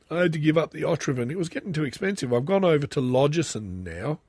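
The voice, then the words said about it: Congested, blocked-nose voice. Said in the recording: “I've got a blocked up nose too. I've got a bit of a cold too.”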